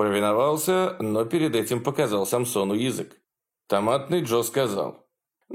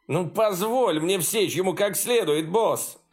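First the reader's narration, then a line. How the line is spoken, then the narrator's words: Whining plea. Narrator (Russian): заскулил перед своим лидером Баусман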